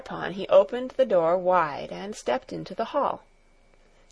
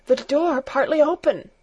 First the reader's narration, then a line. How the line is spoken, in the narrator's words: gasped John